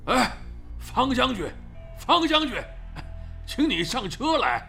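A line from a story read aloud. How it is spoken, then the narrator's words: Calling out from behind. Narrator (Chinese): 那富翁似的家伙在后面叫唤着他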